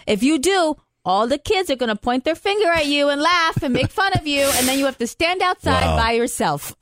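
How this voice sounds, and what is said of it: Thick Italian accent imitation. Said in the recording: “in her thick Italian accent.”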